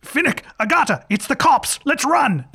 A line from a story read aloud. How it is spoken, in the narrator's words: Fook, on a nearby rooftop, yells over his shoulder